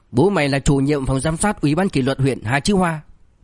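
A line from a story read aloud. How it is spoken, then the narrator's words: Furious. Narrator (Vietnamese): Hà Chi Hoa hết sức tức giận, gã phẫn nộ nói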